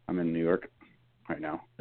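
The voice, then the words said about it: Talking very softly. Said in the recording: “why are you talking so soft?”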